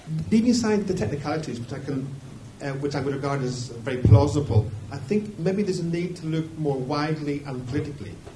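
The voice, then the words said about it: Irish accent. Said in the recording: “as you can probably tell from my accent, I come from Ireland.”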